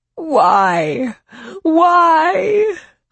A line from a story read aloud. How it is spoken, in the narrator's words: Aline's grandmother wailed